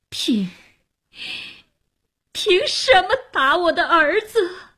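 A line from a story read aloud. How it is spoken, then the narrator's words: Wailing in despair. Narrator (Chinese): 哭喊着失望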